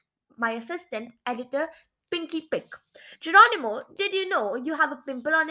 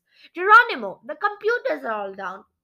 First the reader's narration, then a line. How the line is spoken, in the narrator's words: cried my proofreader, Mikey Misprint